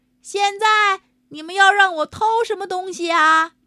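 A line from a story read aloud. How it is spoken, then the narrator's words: Very loud voice. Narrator (Chinese): 他的声音那么大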